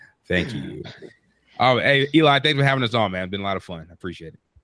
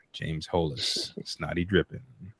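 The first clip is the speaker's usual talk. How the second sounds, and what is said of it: Put-on radio announcer voice. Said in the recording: “This is my radio voice”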